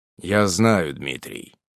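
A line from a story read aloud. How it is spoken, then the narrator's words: Cold. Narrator (Russian): холодно сказал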